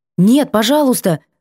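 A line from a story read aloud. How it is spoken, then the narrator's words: Hurried cry. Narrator (Russian): выкрикнула торопливо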